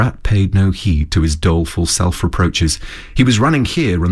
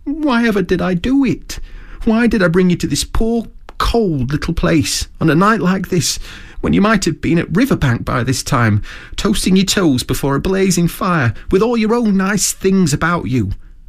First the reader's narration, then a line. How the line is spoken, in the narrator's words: he cried dismally